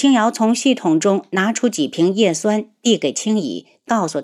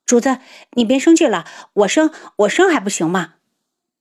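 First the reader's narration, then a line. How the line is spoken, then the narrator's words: Hurried. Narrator (Chinese): 青乙急忙道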